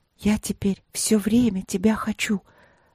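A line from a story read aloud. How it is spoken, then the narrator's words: Intense night whisper confession. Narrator (Russian): призналась она как-то страшным шепотом ночью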